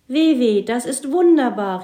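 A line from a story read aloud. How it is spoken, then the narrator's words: Called out. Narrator (German): rief Mats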